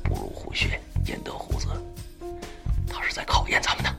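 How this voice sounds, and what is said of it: Low, hushed voice. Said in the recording (Chinese): “低声说道”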